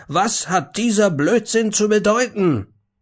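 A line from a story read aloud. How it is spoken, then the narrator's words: Shouted. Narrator (German): schrie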